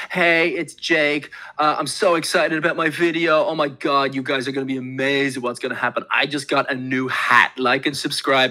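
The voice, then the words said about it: Imitates a typical excited YouTuber. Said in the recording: “doing an impression of someone who's like, you know, a typical fucking YouTuber”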